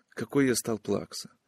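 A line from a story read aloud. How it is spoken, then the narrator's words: Whisper. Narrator (Russian): прошептал он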